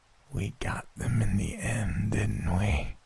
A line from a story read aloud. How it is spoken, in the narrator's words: It rasped, its voice decayed from disuse